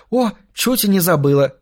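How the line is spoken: Exclaiming. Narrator (Russian): воскликнула

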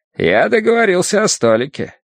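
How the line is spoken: Cheerful. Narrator (Russian): весело сообщил он

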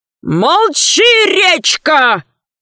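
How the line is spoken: Wailing yell. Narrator (Russian): завопил оборванец

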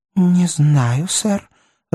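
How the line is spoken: Timid reply. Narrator (Russian): робко отозвалась она

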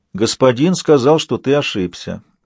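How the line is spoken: Servant's even tone. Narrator (Russian): ровным тоном произнес слуга

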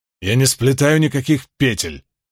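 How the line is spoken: Laughing. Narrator (Russian): рассмеялся Ранд

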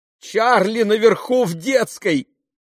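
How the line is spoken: Shout. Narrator (Russian): крикнула она Бену

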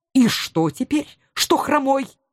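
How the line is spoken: Angry retort. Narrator (Russian): Так сердито отозвался он

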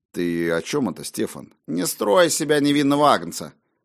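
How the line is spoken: Deliberately casual tone. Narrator (Russian): Я постарался говорить непринужденным тоном

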